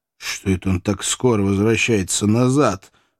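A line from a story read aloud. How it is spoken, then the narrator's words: Muttered. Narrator (Russian): пробормотал охотник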